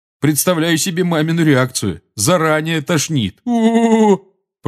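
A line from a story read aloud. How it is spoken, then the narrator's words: Groaning. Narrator (Russian): простонал Джордж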